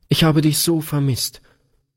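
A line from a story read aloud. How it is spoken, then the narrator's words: Sobbing outburst. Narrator (German): stieß Gretchen schluchzend hervor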